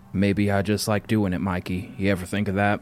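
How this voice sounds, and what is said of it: Put-on cowboy voice. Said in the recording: “do the cowboy voice”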